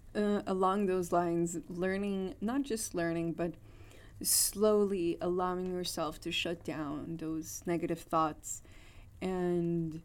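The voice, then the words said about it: Strained, fading voice. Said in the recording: “I'm kind of losing my voice today.”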